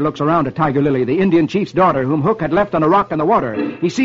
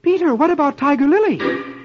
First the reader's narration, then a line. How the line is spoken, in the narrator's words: suddenly, Wendy exclaims